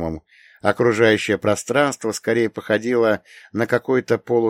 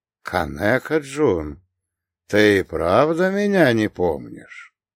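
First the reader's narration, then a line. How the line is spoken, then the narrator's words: Amazed, ingratiating question. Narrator (Russian): изумленно посмотрел на меня, вкрадчиво спросил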